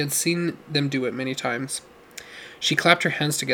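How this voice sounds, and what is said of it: Usual voice. Nothing is said of it.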